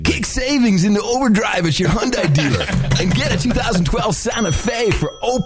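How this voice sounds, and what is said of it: Surfer dude voice. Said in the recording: “the guy at the end was the surfer voice, although I think you could have taken it up a notch ... I put the surfer dude first on the audition tape”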